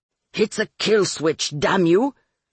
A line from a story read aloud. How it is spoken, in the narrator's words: Luis Cesar snarled at them